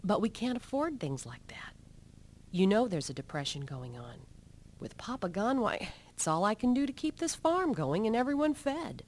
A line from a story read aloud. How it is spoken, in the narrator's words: she sighed